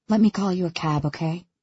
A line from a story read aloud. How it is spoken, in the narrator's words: I say gently